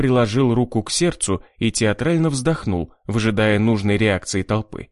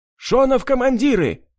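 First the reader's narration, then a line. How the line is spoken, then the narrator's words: Shouted. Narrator (Russian): крикнул кто-то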